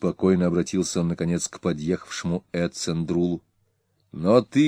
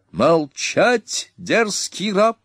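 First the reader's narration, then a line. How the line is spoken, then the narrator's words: Shout. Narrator (Russian): закричал Эрнак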